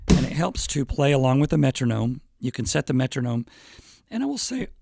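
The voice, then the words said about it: Hoarse voice. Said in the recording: “my voice is a little hoarse today. It's always hoarse”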